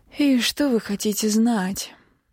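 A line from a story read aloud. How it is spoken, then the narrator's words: Tired question. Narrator (Russian): устало спросила я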